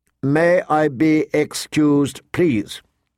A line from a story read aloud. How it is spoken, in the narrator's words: she recited stiffly